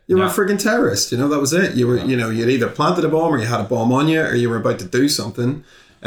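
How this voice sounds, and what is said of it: Northern Irish Belfast accent. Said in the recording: “my accent, whenever I was growing up, anybody's accent from the north ... just going back to Belfast”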